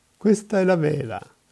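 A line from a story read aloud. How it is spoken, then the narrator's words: Exclaiming. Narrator (Italian): esclamava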